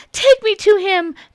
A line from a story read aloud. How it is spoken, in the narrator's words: Mirabelle begged